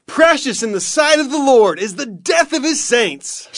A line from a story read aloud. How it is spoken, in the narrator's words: shouted Joel